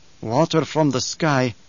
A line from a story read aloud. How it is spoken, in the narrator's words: Stilgar whispered